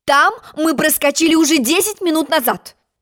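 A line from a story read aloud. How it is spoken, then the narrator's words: Queen shouting. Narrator (Russian): крикнула королева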